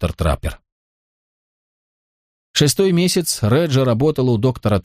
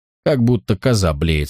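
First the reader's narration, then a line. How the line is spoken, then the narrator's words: Plain. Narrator (Russian): сказала Реджи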